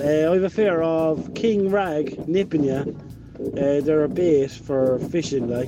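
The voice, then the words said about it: North Cork Irish accent. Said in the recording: “That is such a North Cork thing... I love the North Cork accent.”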